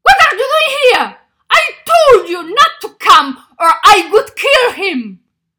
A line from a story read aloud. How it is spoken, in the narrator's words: Carlos shouted